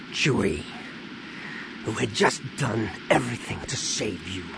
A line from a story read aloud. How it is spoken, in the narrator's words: Han said with a growl